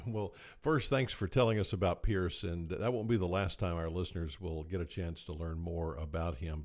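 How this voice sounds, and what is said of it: Good radio voice. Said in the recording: “you have a really good radio voice”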